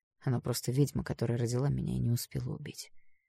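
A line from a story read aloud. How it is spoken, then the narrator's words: Quiet. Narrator (Russian): ответил он тихо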